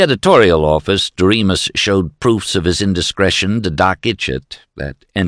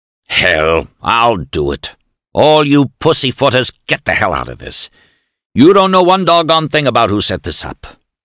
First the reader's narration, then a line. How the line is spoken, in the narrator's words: Dan Wilgus roared